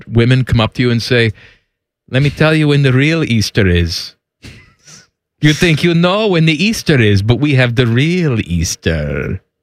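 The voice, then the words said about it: Put-on Greek accent. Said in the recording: “That's the Greek accent that you're going with?”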